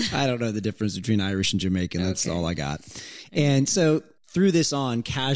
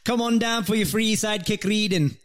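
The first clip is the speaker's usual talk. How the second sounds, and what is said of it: Fake Jamaican accent sounding Irish. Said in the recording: “You always sound Irish, like a leprechaun. ... it was a fake accent. ... But it was Jamaican. A Jamaican accent. Yeah, but it's you sound Irish. Like you sound like Lucky Charms when you do that.”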